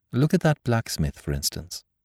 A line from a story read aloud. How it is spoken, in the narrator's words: went on calmly